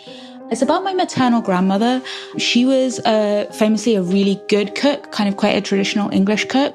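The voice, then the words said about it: London English accent. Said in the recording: “as you might be able to tell from my accent, I'm originally from London.”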